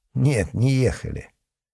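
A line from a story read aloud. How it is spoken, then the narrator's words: Sighing. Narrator (Russian): Мурин вздохнул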